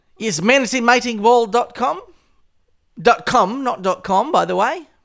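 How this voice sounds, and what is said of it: Speaks with a noticeable accent. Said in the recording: “I know people can't tell it with my accent there.”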